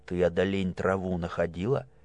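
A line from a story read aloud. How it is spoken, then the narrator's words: Rapid whisper. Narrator (Russian): сестра зашептала скороговоркой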